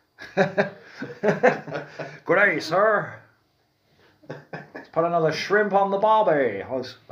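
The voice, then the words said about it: Attempted Texan accent sounding Australian. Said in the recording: “Let's do the rest of the podcast with a Colonel Sanders accent ... That's more of an Australian, that ... You try to go a Texan and then you total down under”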